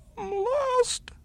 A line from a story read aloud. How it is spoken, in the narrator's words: sobbed the little fellow